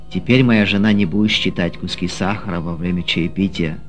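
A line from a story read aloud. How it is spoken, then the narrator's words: Plain. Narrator (Russian): сказал Ефим проповеднику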